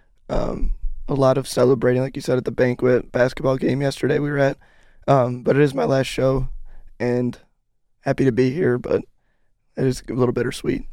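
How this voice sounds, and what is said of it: Slightly scratchy voice. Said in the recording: “my voice is a little scratchy today”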